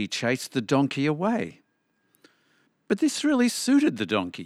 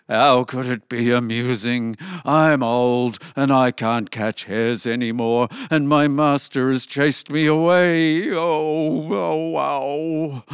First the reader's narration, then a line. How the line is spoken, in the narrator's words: moaned the dog